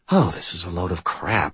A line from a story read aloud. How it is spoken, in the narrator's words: he muttered